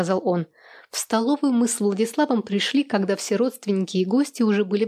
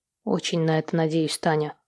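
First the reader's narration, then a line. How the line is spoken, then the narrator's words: Serious tone. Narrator (Russian): серьезным тоном проговорил Владислав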